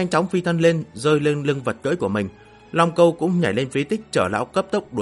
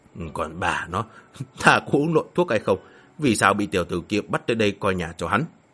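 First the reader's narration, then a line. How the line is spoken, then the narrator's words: Puzzled muttering. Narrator (Vietnamese): Yêu Nhược Tiên lẩm bẩm, dường như không nghĩ ra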